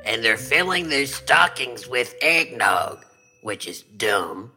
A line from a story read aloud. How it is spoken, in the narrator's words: the possum growled